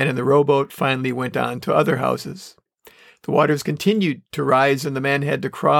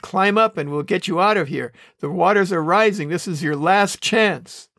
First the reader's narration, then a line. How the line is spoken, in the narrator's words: They shouted